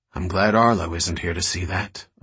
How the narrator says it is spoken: Alicia murmured

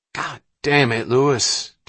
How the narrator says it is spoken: Dobbins growled at the driver

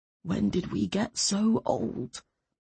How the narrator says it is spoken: he said softly

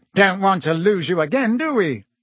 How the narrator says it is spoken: said Fudge, with a hearty laugh

